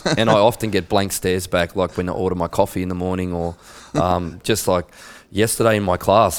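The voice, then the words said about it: Australian accent. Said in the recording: “my Australian accent ... I forget that I'm speaking Australian”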